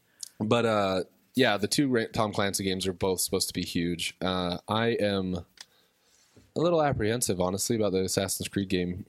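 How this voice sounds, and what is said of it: Sick, weird-sounding voice. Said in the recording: “I've been kind of sick, so my voice is. ... weird.”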